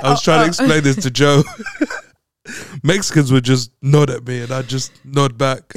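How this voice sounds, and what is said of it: British accent. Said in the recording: “your British accent ... I got a British accent”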